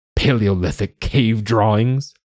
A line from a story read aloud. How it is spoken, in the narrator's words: He scoffed